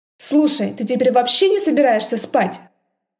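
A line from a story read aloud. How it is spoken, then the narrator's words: Sleepy bark. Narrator (Russian): Сонно рявкнула Мидени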